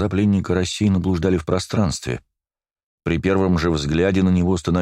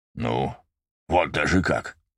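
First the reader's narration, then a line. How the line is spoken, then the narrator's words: Thoughtful grumbling. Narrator (Russian): Задумчиво пробурчал Дак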